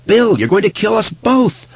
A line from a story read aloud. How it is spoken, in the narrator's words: Audra cried out